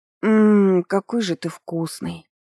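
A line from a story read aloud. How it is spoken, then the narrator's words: Soft muffled moan. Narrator (Russian): тихонько простонала в шею Диалю девушка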